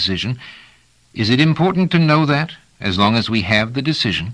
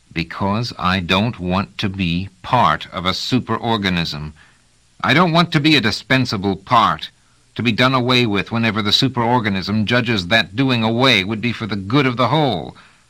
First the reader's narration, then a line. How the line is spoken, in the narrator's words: Trevise drew a deep breath and said slowly, in a low and forceful voice